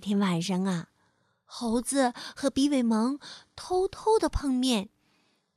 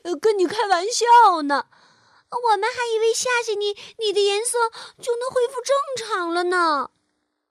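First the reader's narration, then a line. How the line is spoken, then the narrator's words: Shouting. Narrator (Chinese): 猴子和比尾蒙冲变色龙大喊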